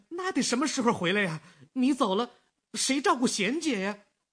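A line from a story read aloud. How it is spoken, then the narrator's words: Anxious shout. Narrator (Chinese): 没等他说完，小吴就着急地喊起来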